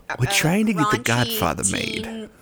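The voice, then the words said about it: Robert Evans impression. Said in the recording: “practicing his Robert Evans impression”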